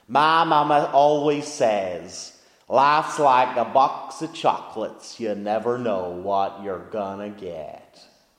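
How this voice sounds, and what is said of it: Attempted Forrest Gump accent. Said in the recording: “I don't know whether I should try the accent for this, or maybe I will.”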